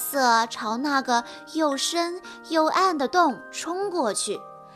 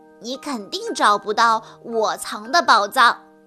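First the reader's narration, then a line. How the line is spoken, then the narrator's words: Cheerful chuckling dinosaur. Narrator (Chinese): 恐龙阿瑟笑呵呵地说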